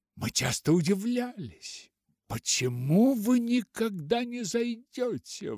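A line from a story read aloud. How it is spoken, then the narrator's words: Exclaimed. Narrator (Russian): воскликнул мистер Уайт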